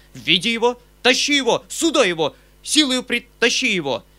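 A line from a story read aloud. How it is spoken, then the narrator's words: Uncle shouting. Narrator (Russian): закричал дядя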